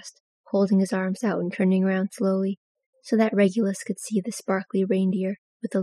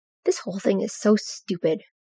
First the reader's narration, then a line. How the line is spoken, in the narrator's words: Regulus grumbled